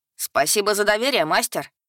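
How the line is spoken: Ironic shout. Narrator (Russian): иронично выкрикнул Лис

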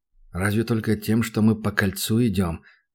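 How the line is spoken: Muttered. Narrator (Russian): пробормотал он

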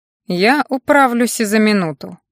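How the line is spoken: Priest's snort. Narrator (Russian): хмыкнул жрец

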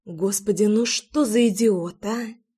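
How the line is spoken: Amused mutter. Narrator (Russian): пробормотала, неосознанно улыбаясь

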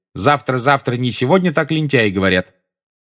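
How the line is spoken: Loud announcement. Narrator (Russian): она громко возвещала

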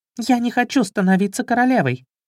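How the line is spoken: Sudden squeak, nearby princess. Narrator (Russian): Неожиданно запищала стоявшая неподалеку принцесса

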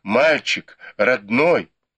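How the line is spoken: Fearful sobbing exclamation. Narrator (Russian): матушка Дзя и госпожа Ван задрожали от страха и разразились громкими рыданиями, которые чередовались с возгласами

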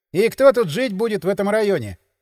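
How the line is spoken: Skeptical snort. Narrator (Russian): хмыкнул он скептически

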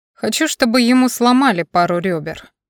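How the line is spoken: Thoughtful, casual. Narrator (Russian): задумчиво отозвался Дориан, словно говорил о выпечке капкейков, а вовсе не о расправе

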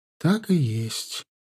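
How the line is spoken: Sad confirmation. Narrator (Russian): отчего-то печально подтвердила Атанха

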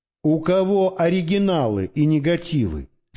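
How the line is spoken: Plain. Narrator (Russian): спросил

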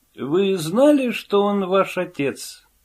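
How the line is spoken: Weary sigh. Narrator (Russian): Она устало вздохнула

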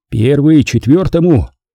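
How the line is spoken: Barked over radio. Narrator (Russian): Рявкнул я в рацию

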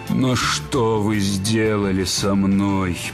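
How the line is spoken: Groaning. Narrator (Russian): простонал он

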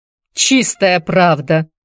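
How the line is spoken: Laughing. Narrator (Russian): Элиот тоже засмеялся

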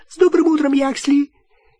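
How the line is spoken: Servile squeak. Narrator (Russian): Кто-то, в ожидающий лифта в толпе, раболепно пискнул

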